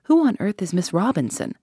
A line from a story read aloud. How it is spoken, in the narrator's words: Poirot beamed kindly on me